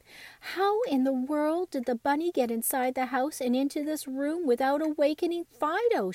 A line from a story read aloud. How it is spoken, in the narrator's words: laughed